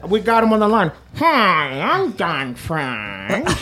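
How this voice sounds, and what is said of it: Villain-like impression voice. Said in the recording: “Why does he sound like a villain? ... is not a good impression to Don Fry? ... Don Fry sounds nothing like that. ... He probably has a deep voice.”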